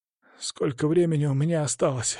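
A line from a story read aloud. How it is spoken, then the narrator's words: Weak, breathy voice. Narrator (Russian): выдохнул он слабым голосом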